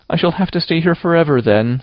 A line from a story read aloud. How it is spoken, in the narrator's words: said Anne, mournfully